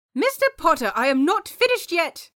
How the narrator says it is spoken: Pomfrey yelled

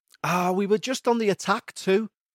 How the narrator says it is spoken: moaned Andy

